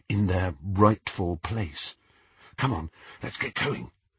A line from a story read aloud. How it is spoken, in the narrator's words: whispered Hermione